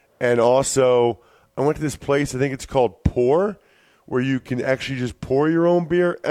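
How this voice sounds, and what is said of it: Sick, strained voice. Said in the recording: “I am a little bit under the weather. Bad combination of being sick ... hopefully my voice gets through the show”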